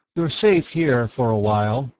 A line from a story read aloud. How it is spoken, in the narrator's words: Raynor 3 said